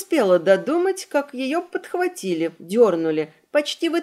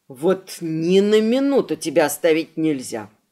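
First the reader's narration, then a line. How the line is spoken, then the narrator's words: Grumbling. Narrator (Russian): проворчал Эдди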